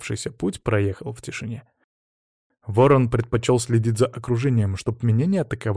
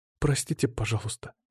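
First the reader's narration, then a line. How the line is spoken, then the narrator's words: Quiet, frightened girl. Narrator (Russian): тихо сказала девушка, напоминая запуганного мокрого котеночка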